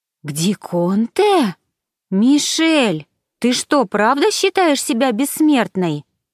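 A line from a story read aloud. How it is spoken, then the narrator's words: Exclaiming. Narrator (Russian): воскликнула та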